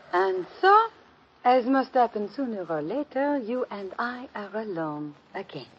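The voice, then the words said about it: Fake French accent. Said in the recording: “you can drop that phony French accent”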